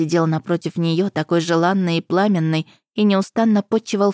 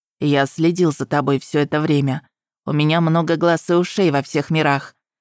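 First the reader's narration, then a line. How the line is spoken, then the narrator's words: Plain. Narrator (Russian): ответил бог обмана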